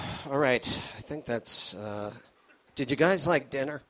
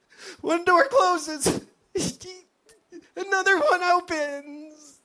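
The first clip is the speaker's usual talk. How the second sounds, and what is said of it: Comedic forced-positive character voice. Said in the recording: “my impression of a guy trying to stay positive while living in a haunted house... Ran out of breath.”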